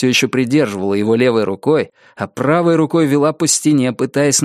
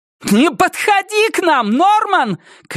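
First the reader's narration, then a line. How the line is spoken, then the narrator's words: Shout. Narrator (Russian): крикнула Рози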